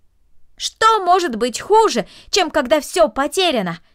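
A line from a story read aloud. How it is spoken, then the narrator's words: Shouted after someone. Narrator (Russian): крикнул ей вслед Дино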